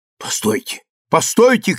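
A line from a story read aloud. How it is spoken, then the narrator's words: Dizzy shout. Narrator (Russian): крикнул я, чувствуя, что у меня кружится голова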